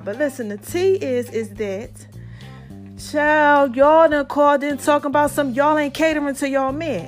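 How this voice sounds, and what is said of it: Out of breath. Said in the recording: “if I sound out of breath,”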